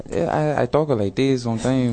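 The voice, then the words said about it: Put-on light Spanish accent. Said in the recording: “a little Spanish accent”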